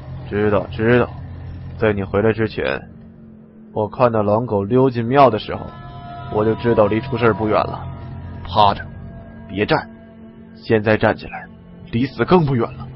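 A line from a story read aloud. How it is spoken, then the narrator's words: Low voice. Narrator (Chinese): 李存壮 低声说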